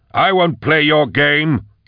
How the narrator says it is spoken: he shouted

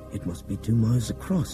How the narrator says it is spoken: Nick whispered

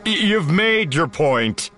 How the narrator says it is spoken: Chewie chuckled

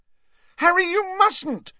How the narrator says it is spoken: shrieked Hermione

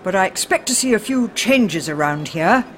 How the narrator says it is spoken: he said sternly

